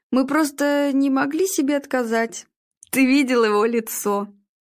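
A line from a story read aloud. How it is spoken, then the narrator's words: Burst out laughing. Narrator (Russian): Игорь не выдержал и рассмеялся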